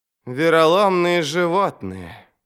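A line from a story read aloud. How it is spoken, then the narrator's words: Sighing. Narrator (Russian): Вздохнул Горм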